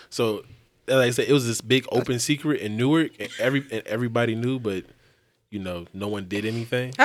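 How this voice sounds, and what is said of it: Speaks with an accent. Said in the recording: “it's my accent”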